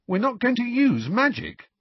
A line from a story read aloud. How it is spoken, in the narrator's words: Ron exclaimed loudly